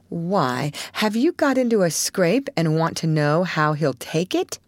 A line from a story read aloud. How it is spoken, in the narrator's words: asked Joe rather sharply